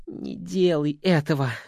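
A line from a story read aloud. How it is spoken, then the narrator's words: Breathed out. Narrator (Russian): выдохнул Верзила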